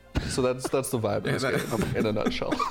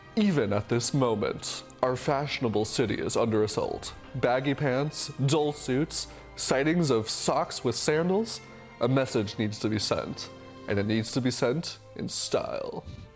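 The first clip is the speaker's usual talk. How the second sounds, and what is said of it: Very dramatic reading voice. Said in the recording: “I'm going to read this in a very dramatic voice. ... that dramatic reading”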